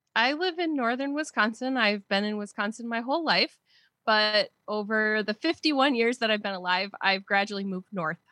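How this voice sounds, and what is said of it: Wisconsin accent. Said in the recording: “you can tell from the accent that I'm a Wisconsin girl”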